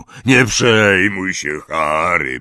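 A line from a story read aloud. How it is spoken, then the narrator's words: Grumbled. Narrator (Polish): burknął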